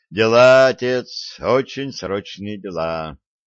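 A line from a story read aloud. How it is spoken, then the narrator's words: Heavy sigh. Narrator (Russian): тяжко вздохнул Виталик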